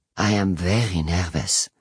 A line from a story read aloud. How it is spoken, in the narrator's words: Perry says quietly